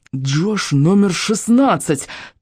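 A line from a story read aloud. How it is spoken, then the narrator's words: Hurried hiss. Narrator (Russian): торопливо зашипел Райан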